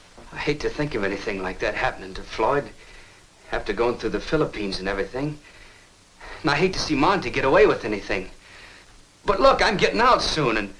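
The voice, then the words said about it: Southern Tennessee accent. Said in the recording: “has Monty ever made fun of your accent? ... He calls you a hillbilly ... because you're from Tennessee.”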